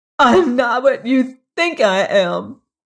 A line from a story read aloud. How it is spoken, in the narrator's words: she sobbed out incoherently